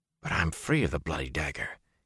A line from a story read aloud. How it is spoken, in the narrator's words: he mumbled